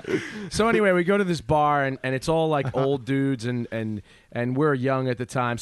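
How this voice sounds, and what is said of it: New Jersey accent. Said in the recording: “your fucking stupid Jersey accent”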